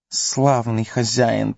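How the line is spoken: Hissing. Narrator (Russian): прошипел он

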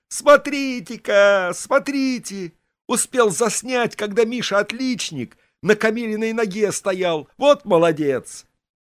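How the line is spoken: Yelled. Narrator (Russian): Миша, круглый троечник, заорал

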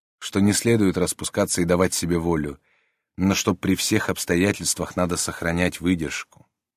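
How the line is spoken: Quiet. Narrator (Russian): ответил он тихо

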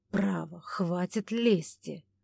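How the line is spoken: Irritated grumble. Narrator (Russian): раздраженно буркнул Ивар

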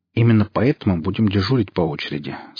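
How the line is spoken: Plain. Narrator (Russian): сказал Гриф

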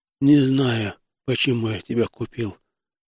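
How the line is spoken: Strained, slurred speech. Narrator (Russian): выдавил я, борясь с заплетающимся языком

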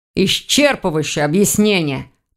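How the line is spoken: Grumbling. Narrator (Russian): проворчал Сидоров

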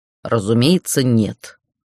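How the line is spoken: Cold. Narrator (Russian): холодно отозвался Иртхан

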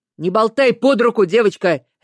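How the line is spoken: Bark. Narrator (Russian): рявкнул Петрович

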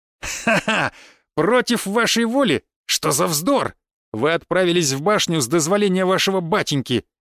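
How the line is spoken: Haughty laughter. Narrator (Russian): надменно засмеялся Мышкин

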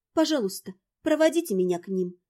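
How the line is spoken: Quiet request. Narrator (Russian): попросила тихо

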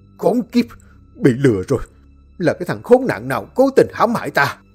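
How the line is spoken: Furious roar. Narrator (Vietnamese): hắn gầm lên tức tối

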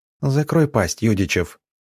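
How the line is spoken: Weary, matter-of-fact. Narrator (Russian): устало и как-то буднично сказала должно быть, говоря нечто подобное уже не раз

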